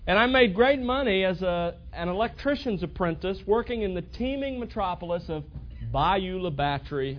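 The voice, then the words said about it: Southern Alabama accent. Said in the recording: “this accent hasn't been picked up in 5 months in Texas. It was actually from Alabama.”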